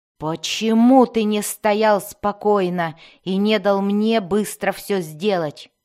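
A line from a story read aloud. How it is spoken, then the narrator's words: Disgusted growl. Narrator (Russian): рычал Безликий с явным отвращением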